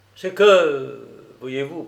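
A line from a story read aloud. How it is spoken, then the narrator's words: Slightly troubled voice. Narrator (French): poursuivit-il d'une voix légèrement troublée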